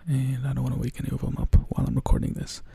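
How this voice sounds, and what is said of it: Whispering. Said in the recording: “I'm recording this while I'm whispering because my roommates are all going to sleep”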